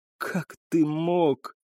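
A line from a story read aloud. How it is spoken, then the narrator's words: Breathy exhale. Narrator (Russian): выдохнула она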